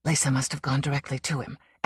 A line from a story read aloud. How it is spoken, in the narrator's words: Anderton speculated bitterly